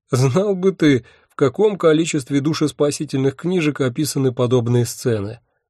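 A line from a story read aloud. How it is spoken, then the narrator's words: Nervous laugh. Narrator (Russian): нервно рассмеялся я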